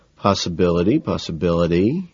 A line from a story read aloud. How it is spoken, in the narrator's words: I murmur, mulling it over